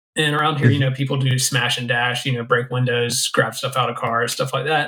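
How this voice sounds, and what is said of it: Western North Carolina accent. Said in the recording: “If people can't tell from your accent. Western North Carolina.”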